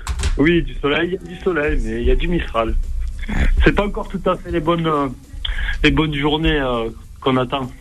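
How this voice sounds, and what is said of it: Regional French accent. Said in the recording (French): “Ça sent l'accent, là.”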